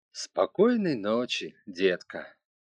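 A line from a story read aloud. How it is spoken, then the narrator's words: Cooed. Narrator (Russian): Она проворковала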